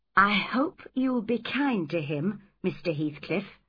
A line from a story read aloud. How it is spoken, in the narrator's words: said